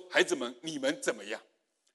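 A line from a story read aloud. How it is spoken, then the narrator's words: Asked. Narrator (Chinese): 他这一句话问出来的时候呢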